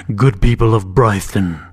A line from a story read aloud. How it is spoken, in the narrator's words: Timur called, his voice booming like thunder